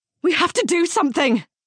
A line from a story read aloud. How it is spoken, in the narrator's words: Siowa exclaimed